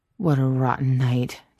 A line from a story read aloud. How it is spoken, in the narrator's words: Jensen slurred